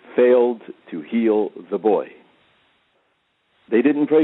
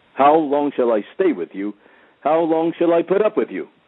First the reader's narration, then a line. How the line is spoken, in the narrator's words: very displeased, rebukes them very harshly